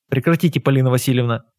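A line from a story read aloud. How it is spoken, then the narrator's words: Angry. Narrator (Russian): сердито сказал я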